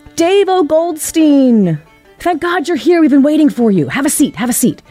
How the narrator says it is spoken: he would yell out from the stage

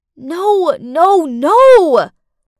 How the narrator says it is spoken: I screamed inside my head

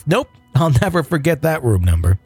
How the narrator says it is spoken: The supervisor laughed

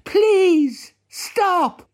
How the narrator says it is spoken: his voice shaking

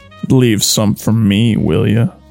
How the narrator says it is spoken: he says in a strangely sultry voice

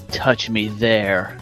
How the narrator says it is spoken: Justin whispered

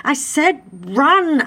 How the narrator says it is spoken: Adam yelled at Prometheus

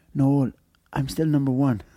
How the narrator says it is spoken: whispered in my ear

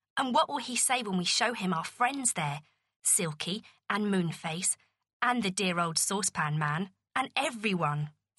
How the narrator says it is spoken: said Beth

